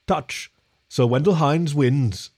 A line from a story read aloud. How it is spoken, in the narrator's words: A Yeti's calm rumble announced